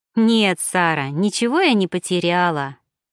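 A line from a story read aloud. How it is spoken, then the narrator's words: Ringing laughter. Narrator (Russian): Лин звонко рассмеялась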